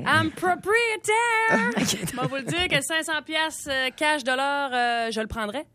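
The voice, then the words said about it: Put-on English-speaker accent in French. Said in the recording (French): “tu te donnes un accent anglophone”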